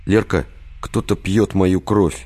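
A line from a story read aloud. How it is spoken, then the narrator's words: Sad and resigned. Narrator (Russian): грустно и обреченно произнес Виктор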